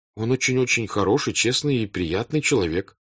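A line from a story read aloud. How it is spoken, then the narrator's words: Plain. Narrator (Russian): сказал Борис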